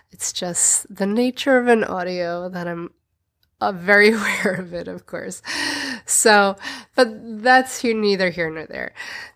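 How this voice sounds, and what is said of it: Congested, stuffy voice. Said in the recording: “You're going to hear in my voice that I've still got that cold. It's an epic one, and now I've got spring pollen... So I sound different.”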